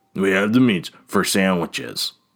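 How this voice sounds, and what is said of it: Imitates a fast-food ad announcer. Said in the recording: “doing that voice. That's the Arby's voice.”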